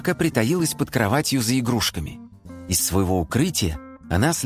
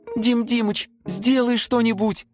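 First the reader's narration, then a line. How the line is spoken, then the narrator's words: Pleading. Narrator (Russian): взмолилась Симка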